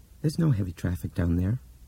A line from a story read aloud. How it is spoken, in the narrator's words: Laurel said in the same dull voice